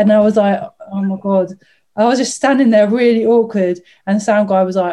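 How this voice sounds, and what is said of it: Usual voice. Nothing is said of it.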